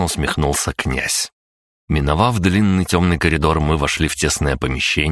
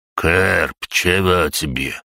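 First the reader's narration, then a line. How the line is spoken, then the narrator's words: Unfriendly grumble. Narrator (Russian): недружелюбно пробурчал Гаврош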